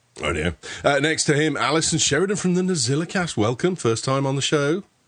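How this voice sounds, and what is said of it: Speaks with a noticeable accent. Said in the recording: “is that just your accent there? ... To blame my accent”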